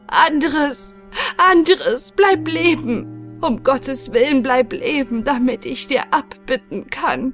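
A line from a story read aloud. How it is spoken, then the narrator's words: Weeping, sobbing cry. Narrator (German): Reuevoll weinte und schluchzte und rief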